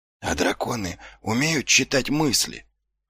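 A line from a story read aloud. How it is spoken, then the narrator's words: Whispered question. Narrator (Russian): шепотом спросил Ваймс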